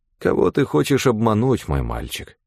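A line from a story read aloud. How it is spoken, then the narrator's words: Sighed. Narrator (Russian): вздохнул Амнис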